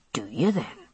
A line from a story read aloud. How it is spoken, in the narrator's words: he said softly